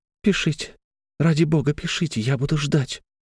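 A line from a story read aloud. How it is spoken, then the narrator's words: Girl whispering. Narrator (Russian): услышал Алексей шепот девушки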